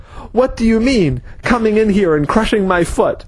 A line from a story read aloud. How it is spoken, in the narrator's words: the man was yelling